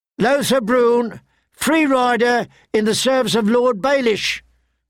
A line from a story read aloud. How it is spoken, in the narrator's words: cried the herald